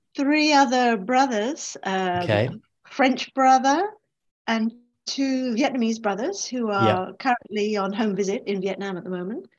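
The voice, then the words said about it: English accent. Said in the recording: “of course I'm English, as you can hear from my voice”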